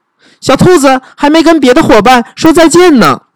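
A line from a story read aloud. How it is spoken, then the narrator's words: Shout. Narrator (Chinese): 他喊道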